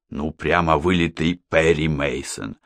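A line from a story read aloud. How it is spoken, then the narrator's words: Smiling whisper. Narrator (Russian): с улыбкой шепнул Мухаммед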